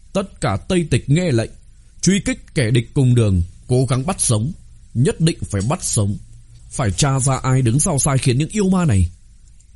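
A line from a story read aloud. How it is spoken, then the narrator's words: Grim, raised voice. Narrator (Vietnamese): Sắc mặt cầu thủy kính trầm xuống, lão cao giọng mà nói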